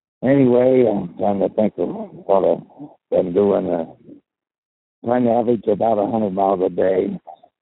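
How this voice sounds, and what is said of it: Hoarse, nearly lost voice. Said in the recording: “I'm sorry if you can't hear me very good. I about lost my voice riding.”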